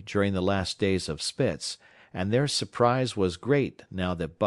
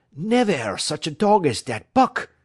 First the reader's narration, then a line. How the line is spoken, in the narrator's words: he cried